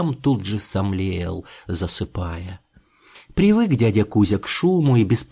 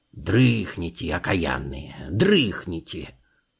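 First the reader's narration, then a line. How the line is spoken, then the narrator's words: Harsh bark. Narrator (Russian): рявкнул он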